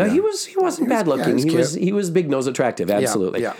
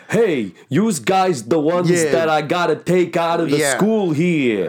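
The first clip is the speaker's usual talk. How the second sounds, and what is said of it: Imitates a New Jersey Italian-American accent. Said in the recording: “With an accent ... He had a very bada boom, bada bing, how you doing?”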